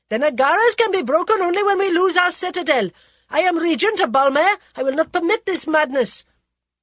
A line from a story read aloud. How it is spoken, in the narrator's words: Rajaman Singh shouted angrily